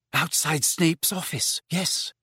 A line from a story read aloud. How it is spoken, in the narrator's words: whispered Hermione, her eyes sparkling with tears